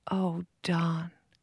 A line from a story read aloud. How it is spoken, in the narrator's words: she said softly, trying to control her voice